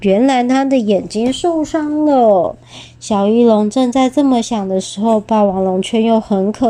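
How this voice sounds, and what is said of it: Usual voice. Nothing is said of it.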